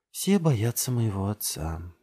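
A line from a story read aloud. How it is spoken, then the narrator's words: Murmured like a lullaby. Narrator (Russian): бормочет Джессика Делию вместо колыбельной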